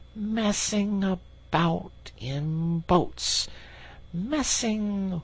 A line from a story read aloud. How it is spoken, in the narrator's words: he went on dreamily